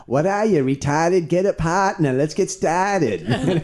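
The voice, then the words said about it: Put-on heavy Boston accent, yelling. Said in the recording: “he was also from the Boston area ... That's like from Everett or some Revere ... Revere is a severe accent ... That's about as Massachusetts as it gets.”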